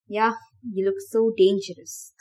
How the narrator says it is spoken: Thomas muttered

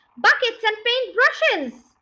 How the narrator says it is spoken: cried Muggle-Wump

